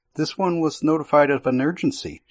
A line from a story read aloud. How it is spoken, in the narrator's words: she replied